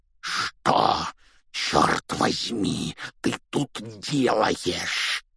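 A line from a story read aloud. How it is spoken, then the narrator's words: Furious rasp through clenched teeth. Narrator (Russian): прохрипел дядя Вернон сквозь стиснутые зубы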